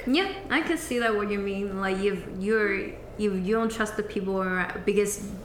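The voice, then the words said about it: Non-native English accent. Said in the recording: “my accent is not that bad, right?”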